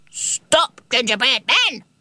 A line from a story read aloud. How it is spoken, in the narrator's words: barked the dog